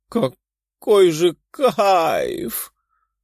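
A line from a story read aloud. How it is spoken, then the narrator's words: Moan. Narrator (Russian): простонала она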